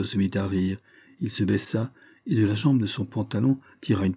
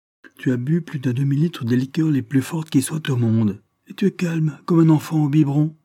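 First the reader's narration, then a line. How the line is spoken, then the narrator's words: Exclaiming. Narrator (French): s'écria-t-il enfin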